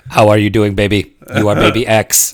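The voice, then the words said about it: Robotic voice imitating another person. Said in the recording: “he was very much a robot”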